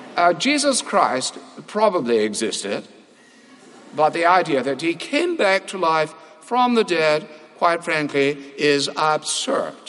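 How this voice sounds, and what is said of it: Richard Dawkins impression, Cambridge accent. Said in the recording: “if you say things like that with that Cambridge accent, it carries a tremendous amount of weight”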